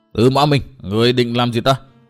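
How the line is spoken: Angry, through gritted teeth. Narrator (Vietnamese): nổi giận, gằn giọng nói

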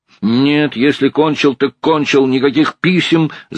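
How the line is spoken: Shout. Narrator (Russian): закричал Николай Николаевич

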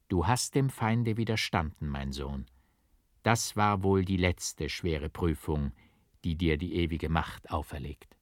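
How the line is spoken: Gentle voice. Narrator (German): Leonardus mit sanfter Stimme sprach er

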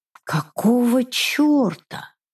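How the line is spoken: Confused, to herself. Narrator (Russian): растерянно спросила я у самой себя

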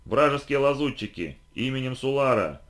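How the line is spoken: Militant's pompous exclamation. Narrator (Russian): пафосно воскликнул суларит-боевик

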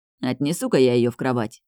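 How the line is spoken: Mumbled. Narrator (Russian): пробормотал

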